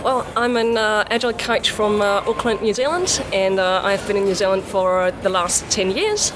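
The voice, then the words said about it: European accent with Kiwi influence. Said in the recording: “Kiwi accent is actually getting pretty good... you could tell that you were a foreigner from a faraway land, but from Europe. But now actually you're getting the Kiwi stuff down pretty good.”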